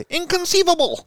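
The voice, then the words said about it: Imitates another person's voice. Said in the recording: “Nailed that. ... You nailed that, dude. That was the best impression you've ever had.”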